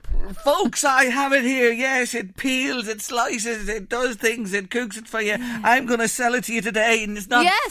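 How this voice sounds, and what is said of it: Pushy market salesman sales-pitch voice. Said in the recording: “Can I do an impression? ... You know the salesman.”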